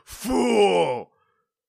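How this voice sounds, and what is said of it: Villainous cartoon character voice. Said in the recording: “my best Snatcher impression.”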